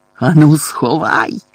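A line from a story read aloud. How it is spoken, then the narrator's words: Growled into ear. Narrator (Ukrainian): прогарчав йому у вухо дядько Вернон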